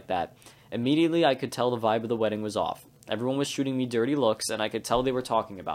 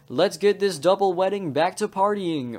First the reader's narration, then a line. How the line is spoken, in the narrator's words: I then shouted